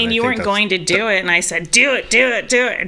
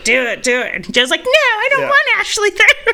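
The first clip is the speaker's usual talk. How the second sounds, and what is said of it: Imitates another person's voice. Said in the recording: “that's a terrible Joe impersonation. ... That's pretty good. Actually, you improved it quite dramatically right there.”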